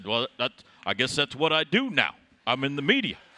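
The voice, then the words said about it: Imitates another person's voice. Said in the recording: “your Bob impression is pretty ... good. ... Bad. ... It's not bad.”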